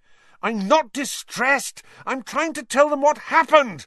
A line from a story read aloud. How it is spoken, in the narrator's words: Harry said furiously